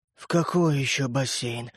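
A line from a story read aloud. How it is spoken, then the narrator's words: Sleepy mumble. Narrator (Russian): сонно пробормотал папа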